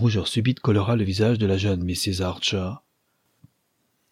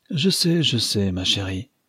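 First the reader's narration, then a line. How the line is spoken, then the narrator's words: Sigh. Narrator (French): soupira Mrs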